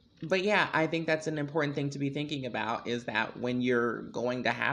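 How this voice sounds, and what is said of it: Usual voice. Nothing is said of it.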